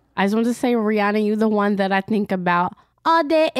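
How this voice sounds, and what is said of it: Put-on accent, badly done. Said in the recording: “That was an ugly accent.”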